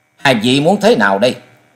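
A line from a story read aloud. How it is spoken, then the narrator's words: Cold. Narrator (Vietnamese): Trần Lâm lạnh lùng nói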